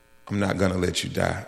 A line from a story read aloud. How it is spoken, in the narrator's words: And in the most assuring voice, she said